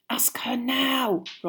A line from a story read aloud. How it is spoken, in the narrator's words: Ron hissed